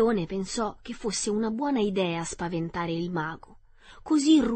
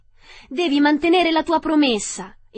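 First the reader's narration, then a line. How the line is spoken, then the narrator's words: Exclamation. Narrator (Italian): esclamò Dorothy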